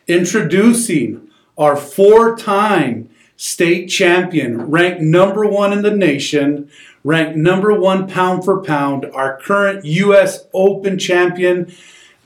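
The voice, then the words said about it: Bruce Buffer announcer impression. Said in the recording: “my best impression of Bruce Buffer”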